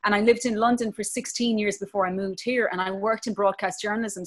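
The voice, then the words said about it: Irish Clare accent, fairly flat. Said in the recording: “Mine is Clare mostly. So it's kind of flat... my accent has actually got stronger since I've been in America... I sound more Irish than ever”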